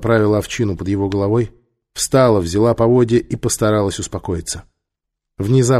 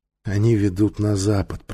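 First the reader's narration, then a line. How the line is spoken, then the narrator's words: Whisper through swollen, cracking lips. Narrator (Russian): прошептала она губами, которые начинали раздуваться и трескаться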